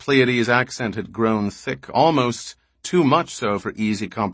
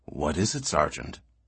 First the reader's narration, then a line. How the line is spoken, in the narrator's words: Barr said softly